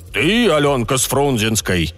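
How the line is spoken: Loud, deliberately deep voice. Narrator (Russian): громко, нарочито низким голосом спросил он

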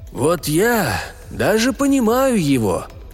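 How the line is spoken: Tragic sigh. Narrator (Russian): трагически вздохнув, сказал Каас

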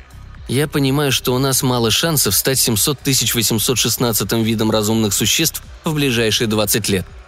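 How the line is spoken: Gruff mutter. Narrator (Russian): буркнул он

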